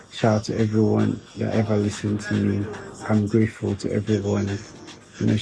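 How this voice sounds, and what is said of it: Tired, rough voice. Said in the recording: “My voice is kind of crooked right now because, you know, I'm tired, I'm exhausted”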